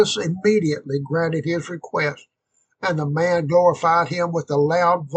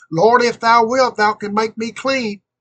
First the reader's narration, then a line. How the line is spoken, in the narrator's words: the poor leper cried out for relief